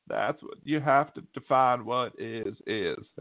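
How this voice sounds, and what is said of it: Imitates another person's voice. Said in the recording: “my bad Bill Clinton impression”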